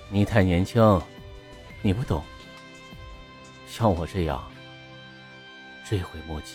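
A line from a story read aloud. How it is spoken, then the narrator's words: Voice fading lower. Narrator (Chinese): 齐光远声音越来越低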